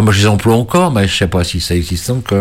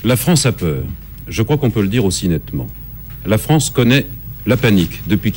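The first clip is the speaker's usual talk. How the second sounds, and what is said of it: Neutral TV newsreader voice, Roger Gicquel. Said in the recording (French): “il faut parler comme la télévision. TF1 20h avec Roger Il faut avoir un accent neutre ... On disait il faut parler comme Roger Gical.”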